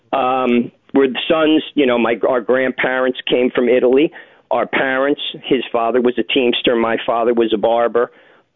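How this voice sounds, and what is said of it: New York area accent. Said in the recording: “your accent precisely, where are we talking? New York City?”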